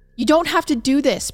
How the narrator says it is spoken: Barbara pleaded

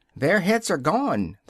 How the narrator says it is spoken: the soldiers shouted in reply

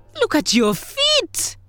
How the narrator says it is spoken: Grasshopper cried

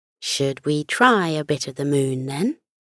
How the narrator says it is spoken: she asked teasingly

